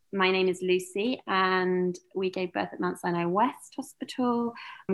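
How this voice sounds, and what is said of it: British accent. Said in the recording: “I'm originally from the UK, as you can probably tell from the accent.”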